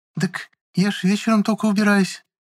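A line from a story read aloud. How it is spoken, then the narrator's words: Anxious, tense, ingratiating question. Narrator (Russian): встревожилась Праня и немного напряженным голосом искательно спросила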